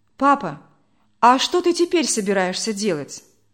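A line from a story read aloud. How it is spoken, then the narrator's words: Plain. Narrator (Russian): спросил Володя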